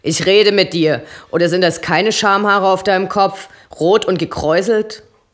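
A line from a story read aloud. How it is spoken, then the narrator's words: Bellowing. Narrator (German): brüllt Eddie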